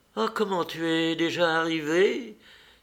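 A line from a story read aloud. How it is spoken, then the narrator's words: Exclaiming. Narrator (French): s'écria-t-elle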